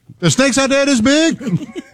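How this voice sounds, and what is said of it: Imitates another person's voice. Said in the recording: “if Ice Cube watched those, what would he say? ... my impression isn't that accurate”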